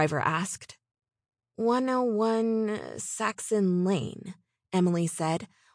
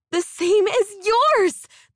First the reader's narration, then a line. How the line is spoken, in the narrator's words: the redhead shrieked